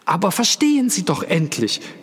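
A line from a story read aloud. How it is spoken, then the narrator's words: Calling out. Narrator (German): rief Echnaton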